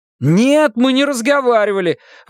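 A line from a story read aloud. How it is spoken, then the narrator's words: Exclaiming. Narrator (Russian): воскликнул Шон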